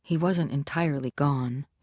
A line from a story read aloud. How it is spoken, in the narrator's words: she murmured